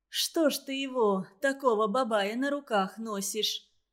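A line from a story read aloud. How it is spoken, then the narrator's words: Grumbling. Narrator (Russian): Заворчала она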